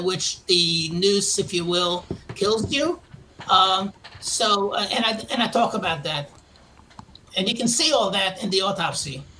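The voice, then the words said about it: Queens, New York accent. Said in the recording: “if you can't tell from my accent, I'm from originally from Queens, New York... I can't seem to lose my accent.”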